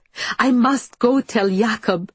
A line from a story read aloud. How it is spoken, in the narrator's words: shrieks